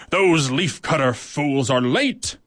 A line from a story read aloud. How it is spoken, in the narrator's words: she snarled